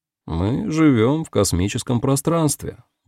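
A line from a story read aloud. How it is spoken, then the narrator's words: Flat, dispassionate tone. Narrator (Russian): бесстрастным тоном произнес Африэль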